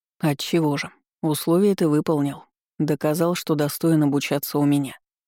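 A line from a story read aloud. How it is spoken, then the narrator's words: Calm. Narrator (Russian): спокойно произнес Аламейский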